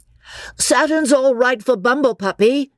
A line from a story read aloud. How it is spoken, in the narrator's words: cried Freddy